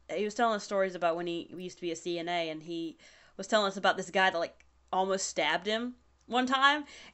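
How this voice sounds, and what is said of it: Strong Southern US accent. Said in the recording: “My southern accent is particularly bad today”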